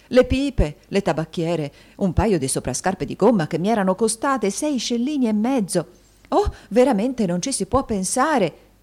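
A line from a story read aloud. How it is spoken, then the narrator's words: Women shouting together. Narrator (Italian): gridarono le matrone in generale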